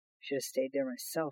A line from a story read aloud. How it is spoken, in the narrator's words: Hutch muttered